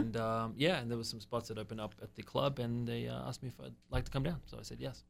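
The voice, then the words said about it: Australian accent. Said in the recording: “Hello, Australia. Hello, mate... Yeah, that old accent there.”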